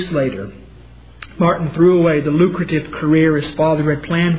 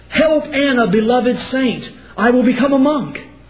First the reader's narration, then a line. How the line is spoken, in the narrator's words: Terrified by his close brush with death, Martin cried out